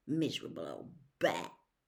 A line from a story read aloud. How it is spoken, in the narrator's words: said Ron bitterly